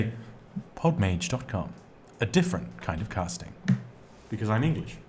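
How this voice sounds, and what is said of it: Usual voice. Nothing is said of it.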